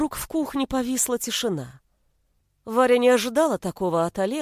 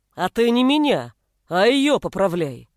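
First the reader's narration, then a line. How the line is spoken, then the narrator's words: Barking. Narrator (Russian): рявкнул тот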